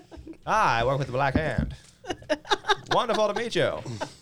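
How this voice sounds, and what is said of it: Character voice, transatlantic accent. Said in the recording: “my next character will have a transatlantic accent.”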